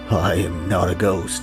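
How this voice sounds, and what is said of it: Spooky, poor imitation of another person's voice. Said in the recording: “that was a scary bad impersonation of Nixon ... it's scarier when I do that voice”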